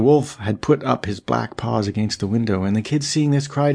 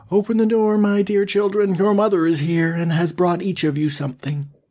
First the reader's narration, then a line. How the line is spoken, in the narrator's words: cried